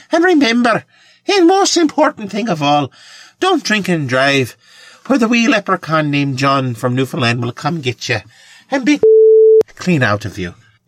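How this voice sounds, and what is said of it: Attempted Irish accent, not very good. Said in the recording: “I'm not a very good Irish guy. Apparently I sound Irish, though, in my accent.”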